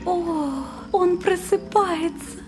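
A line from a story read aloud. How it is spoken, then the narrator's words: Coquettish little exclamation. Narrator (Russian): Неожиданно кокетливым голоском воскликнула одна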